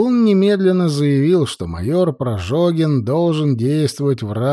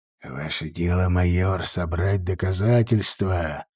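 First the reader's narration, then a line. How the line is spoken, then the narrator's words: Sorcerer's whisper. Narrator (Russian): шептал колдун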